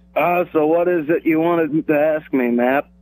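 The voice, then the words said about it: Imitates another person's voice. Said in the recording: “you've been working on your Mike Leach impression?”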